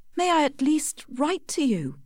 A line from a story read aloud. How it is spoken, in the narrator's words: begged Tess